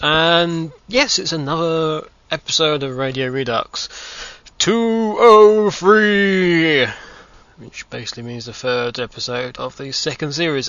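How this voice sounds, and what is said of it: Odd, unusual-sounding voice. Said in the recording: “with a very funny voice.”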